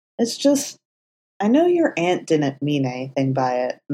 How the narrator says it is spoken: Matt said, his tone hesitant

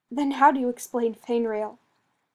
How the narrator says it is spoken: Fenris replied, his tone accusing

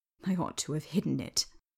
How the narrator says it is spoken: he muttered

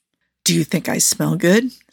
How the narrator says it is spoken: Steve whispered back

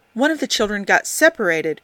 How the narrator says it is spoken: Uhura gasped

